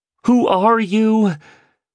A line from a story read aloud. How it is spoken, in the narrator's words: screamed the terrified entrepreneur